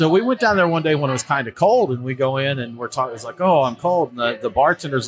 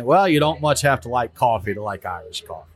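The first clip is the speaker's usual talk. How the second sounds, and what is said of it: Thick Irish accent. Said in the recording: “in a thick Irish accent.”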